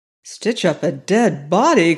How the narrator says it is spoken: cried the robber in pretended amazement, concealing his joy

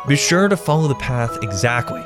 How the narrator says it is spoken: had said

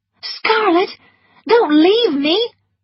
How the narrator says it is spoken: cried Melanie

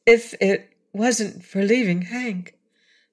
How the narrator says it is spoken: began Betsy in a hesitating voice

